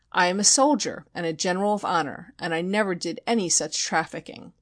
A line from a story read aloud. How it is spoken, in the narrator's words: cried grandly, when charged with selling bogus patents of nobility